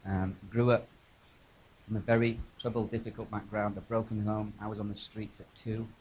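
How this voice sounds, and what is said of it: English accent. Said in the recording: “I'm Irish, actually, despite the English accent.”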